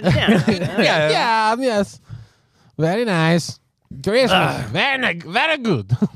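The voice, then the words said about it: Borat impression. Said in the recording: “constantly going in and out of his Borat impression”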